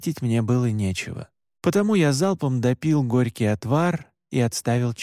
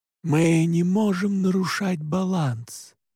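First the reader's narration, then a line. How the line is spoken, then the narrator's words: Soft, gentle. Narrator (Russian): мягко сказал отец Паскаль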